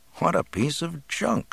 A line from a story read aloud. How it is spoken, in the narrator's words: Luke murmured